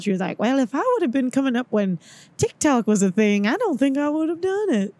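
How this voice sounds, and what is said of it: Imitates another person's voice. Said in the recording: “that's my impression of Jennifer Aniston ... That was really good. I thought she was on the pod ... Yeah, I do voices ... is that Rachel from Friends over there?”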